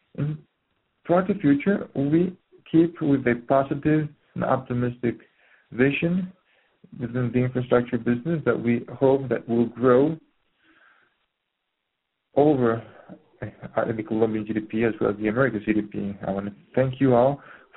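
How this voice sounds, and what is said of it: Hoarse, congested voice. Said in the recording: “sorry for my voice. I have a cold,”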